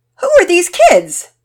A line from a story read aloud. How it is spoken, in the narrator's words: Daddy Peter's asked loudly